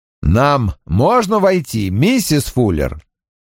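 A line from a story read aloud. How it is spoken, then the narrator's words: Loud question. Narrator (Russian): громко спросил Страйк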